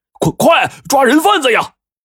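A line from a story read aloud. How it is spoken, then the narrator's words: Shouting. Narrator (Chinese): 这中年男人呢 就喊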